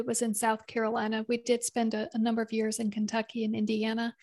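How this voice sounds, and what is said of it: Southern American accent. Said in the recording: “I'm also hearing a Southern accent.”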